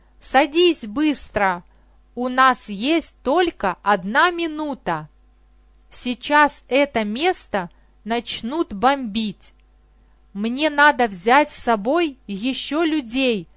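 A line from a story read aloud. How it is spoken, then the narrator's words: Shouted. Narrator (Russian): крикнул Павел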